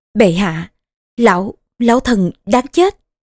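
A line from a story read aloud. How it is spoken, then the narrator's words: Trembling, crying voice. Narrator (Vietnamese): Tây Chu Công giọng nói run rẩy cũng khóc mà nói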